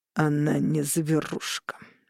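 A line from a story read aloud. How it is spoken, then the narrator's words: Through clenched teeth. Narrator (Russian): процедил Роган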